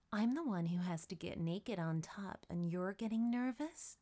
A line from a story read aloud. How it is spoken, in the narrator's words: Courtney chuckled, teasing her friend